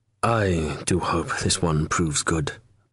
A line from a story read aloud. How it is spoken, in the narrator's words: Bartholow murmured